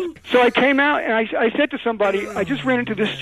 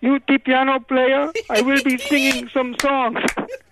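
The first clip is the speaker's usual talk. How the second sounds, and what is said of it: Put-on foreign accent. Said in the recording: “this guy starts talking to me in a foreign accent ... this strange foreign guy”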